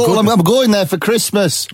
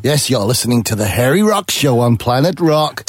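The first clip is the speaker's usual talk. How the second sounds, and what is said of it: Slightly American accent. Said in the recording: “He did that with a slightly American accent”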